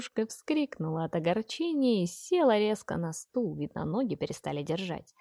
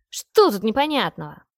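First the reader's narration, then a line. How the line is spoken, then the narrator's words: Angry snap. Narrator (Russian): В сердцах огрызнулась та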